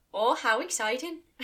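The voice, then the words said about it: Put-on Irish accent. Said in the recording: “That was very Irish. ... Now it's 100% Irish.”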